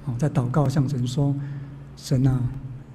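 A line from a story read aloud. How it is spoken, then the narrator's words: Crying prayer. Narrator (Chinese): 我太太她哭了，她跟哭着向神说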